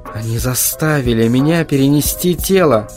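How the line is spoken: Gloomy objection. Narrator (Russian): возразил я мрачно

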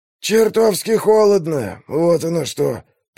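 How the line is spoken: Grumbling. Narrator (Russian): проворчал Скорген

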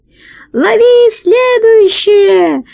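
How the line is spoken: Thin-voiced shout, fat man. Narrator (Russian): закричал тонким голосом толстяк

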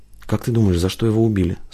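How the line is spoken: Sleepy question. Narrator (Russian): сонно спросила Тая

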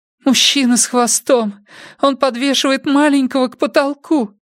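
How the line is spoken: Moaned. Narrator (Russian): простонала она

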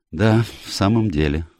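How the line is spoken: Sighing. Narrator (Russian): вздохнул я

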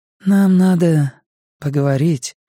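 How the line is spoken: Tired female voice. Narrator (Russian): сказала она, и Скотт подумал, что ее голос звучит устало

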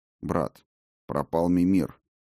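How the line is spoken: Curt and dry. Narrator (Russian): сухо бросил Хедин

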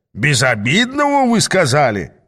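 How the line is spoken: Exclamation. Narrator (Russian): воскликнул Ас

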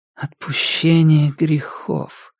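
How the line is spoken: Whispered. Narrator (Russian): прошептала она

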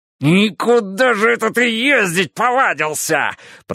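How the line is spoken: Shrill squeal. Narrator (Russian): провизжал он

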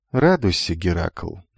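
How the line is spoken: Quiet announcement, young woman. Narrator (Russian): негромко объявила девушка

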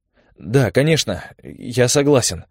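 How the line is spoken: Hurried exclamation. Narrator (Russian): воскликнул Олег торопливо

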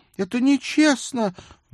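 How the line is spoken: Wailing cry. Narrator (Russian): взвопил Мэтью

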